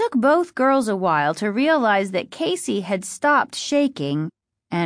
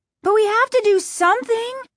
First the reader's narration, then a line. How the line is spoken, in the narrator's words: Margaret cried